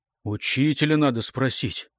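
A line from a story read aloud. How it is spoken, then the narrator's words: Forced out. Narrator (Russian): выдавил Лыкаш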